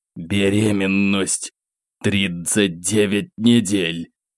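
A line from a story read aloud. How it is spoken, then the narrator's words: Whisper through teeth. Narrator (Russian): прошептал сквозь зубы неизвестный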